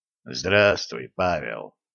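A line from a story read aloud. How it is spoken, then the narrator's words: Hoarse, slightly breaking voice. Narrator (Russian): Хриплым, чуть срывающимся голосом ответил Серебрянский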